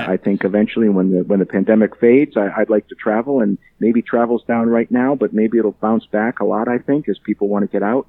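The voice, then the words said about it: Northern New England accent. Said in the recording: “I recognized a northern accent”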